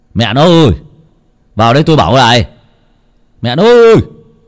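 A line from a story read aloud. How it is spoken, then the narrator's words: Annoyed man calling. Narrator (Vietnamese): ông bực mình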